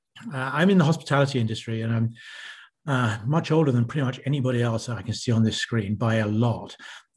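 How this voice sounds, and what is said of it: British accent. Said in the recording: “As you can hear from my accent, I'm from the UK originally.”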